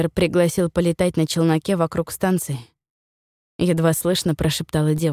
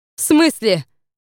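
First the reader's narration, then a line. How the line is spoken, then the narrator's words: Echoing shout. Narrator (Russian): выкрикнула Роза, и голос эхом пролетел по оранжерее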